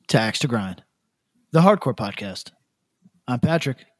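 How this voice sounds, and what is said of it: Polished radio announcer voice. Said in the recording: “I feel like my radio voice is really on point right there.”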